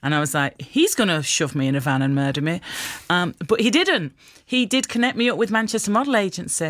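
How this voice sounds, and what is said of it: Usual voice. Nothing is said of it.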